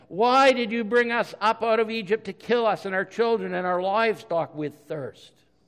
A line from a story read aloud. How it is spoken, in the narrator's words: the people grumbled against Moses and said